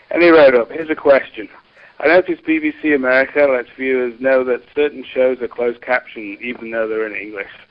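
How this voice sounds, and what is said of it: British accent. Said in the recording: “Brit accents ... a bloke with an accent ... the Brit accent”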